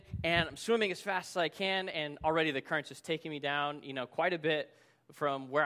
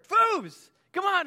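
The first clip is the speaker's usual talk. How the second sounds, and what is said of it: Yelling across a distance. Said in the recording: “I'm yelling at him from across the river”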